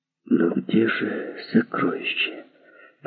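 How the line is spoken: Whisper. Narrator (Russian): прошептала Клеопатра

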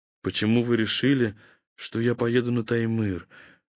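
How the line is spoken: Weary question. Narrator (Russian): устало спросил Святослав Людвигович

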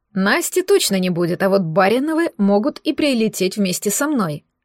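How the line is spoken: Plain. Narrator (Russian): ответил Генри

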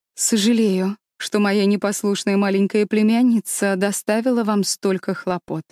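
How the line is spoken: Plain. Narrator (Russian): сказала она бабушке

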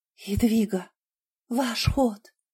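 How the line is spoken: Hissing. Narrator (Russian): прошипела Кэти

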